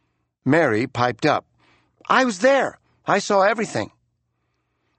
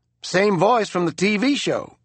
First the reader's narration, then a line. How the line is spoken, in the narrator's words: said Burton